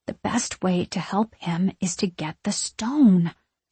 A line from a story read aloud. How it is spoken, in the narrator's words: I whisper